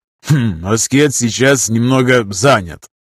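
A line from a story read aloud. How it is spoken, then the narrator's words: Spiteful snort. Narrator (Russian): хмыкнул злобный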